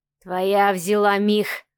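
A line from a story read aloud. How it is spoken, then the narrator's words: Hiss. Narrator (Russian): прошипел Сава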